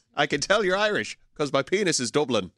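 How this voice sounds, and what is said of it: Put-on Irish accent. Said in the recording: “I love how ... going to do his Irish accent all day. But it's really good, though. ... it is so spot on ... the worst Irish accent they've ever heard in their life”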